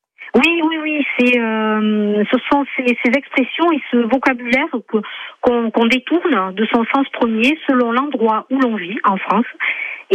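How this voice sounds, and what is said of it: Light southern French accent. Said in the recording (French): “Vous avez un petit accent du sud, de ce que j'entends.”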